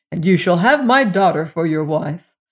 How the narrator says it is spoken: exclaimed the king

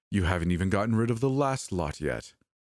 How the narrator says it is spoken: he said desperately

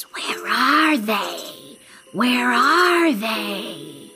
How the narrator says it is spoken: the snake hissed

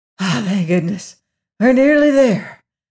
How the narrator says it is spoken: panted the little wizard

